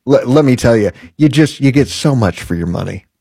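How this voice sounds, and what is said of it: Sarcastic tone. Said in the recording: “you hear the sarcasm in my voice?”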